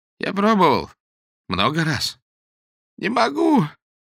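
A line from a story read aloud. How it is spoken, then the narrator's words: Childlike sob. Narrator (Russian): всхлипнул Сергей Тихонович, похожий сейчас на состарившегося ребенка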